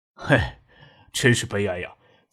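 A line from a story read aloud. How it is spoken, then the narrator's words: Laughing sigh. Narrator (Chinese): 张之行才笑了，叹了一口气，跟妻子说道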